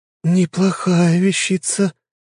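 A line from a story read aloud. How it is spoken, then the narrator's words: Hoarse remark. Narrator (Russian): хриплым голосом заметила Сафелия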